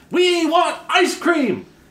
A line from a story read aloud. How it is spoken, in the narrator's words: a few kids screaming